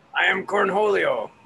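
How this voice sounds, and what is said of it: Beavis impression as Cornholio. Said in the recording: “your Beavis impersonation”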